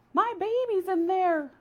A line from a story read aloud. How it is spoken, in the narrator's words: cried a mother hare